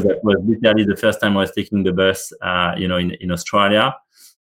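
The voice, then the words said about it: Heavy French accent. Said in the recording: “I'm not apologizing anymore about my accent ... I've got a heavy accent”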